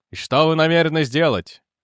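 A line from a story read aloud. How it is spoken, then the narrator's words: Growling. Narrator (Russian): прорычал Лэнгтон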